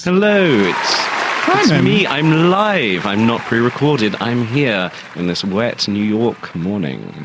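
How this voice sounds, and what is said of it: Plummy British accent. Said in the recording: “that plummy British accent”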